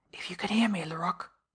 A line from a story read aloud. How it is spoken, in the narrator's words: he whispered